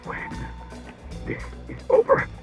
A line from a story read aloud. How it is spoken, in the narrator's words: he began, but choked into inarticulacy